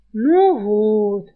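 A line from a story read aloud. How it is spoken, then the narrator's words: Disappointed drawl, thief. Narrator (Russian): разочарованно протянул вор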